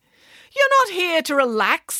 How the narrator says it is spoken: snapped the vice principal

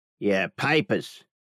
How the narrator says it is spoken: he rasped

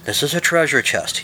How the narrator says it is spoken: says

